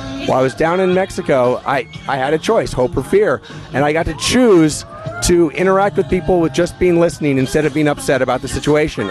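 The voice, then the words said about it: Hoarse, partly lost voice. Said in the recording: “right now I actually have lost half my voice”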